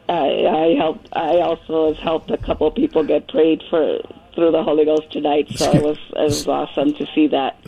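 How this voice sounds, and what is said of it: Hoarse voice. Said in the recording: “I'm really hoarse from all the speaking in tongues”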